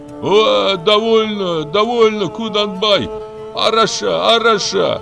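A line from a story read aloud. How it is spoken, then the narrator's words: Shouting. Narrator (Russian): кричал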